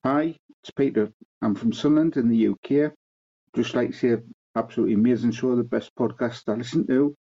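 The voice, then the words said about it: Strong Sunderland English accent. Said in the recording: “for those who are having trouble with the accent. from Sunderland in the UK.”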